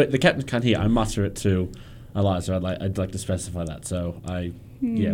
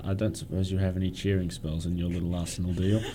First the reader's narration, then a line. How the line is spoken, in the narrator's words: I mutter to Eliza